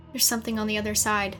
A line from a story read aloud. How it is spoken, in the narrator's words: Shale whispered